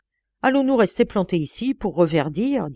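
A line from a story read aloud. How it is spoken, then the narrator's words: Plain. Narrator (French): dit-il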